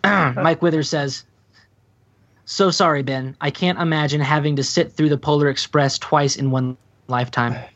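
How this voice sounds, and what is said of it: Flat, uninterested reading voice. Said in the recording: “I'm going to read it in my not interested voice”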